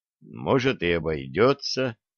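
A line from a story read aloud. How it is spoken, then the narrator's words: Mutter, sorcerer. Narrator (Russian): пробормотал ведун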